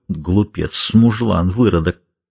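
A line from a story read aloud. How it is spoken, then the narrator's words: Muttering through teeth. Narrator (Russian): бормоча сквозь зубы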